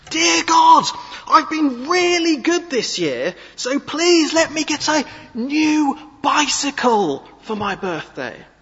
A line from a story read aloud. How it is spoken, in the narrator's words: he began to shout at the top of his lungs